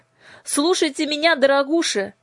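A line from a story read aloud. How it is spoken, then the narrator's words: Shout. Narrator (Russian): закричала она ламием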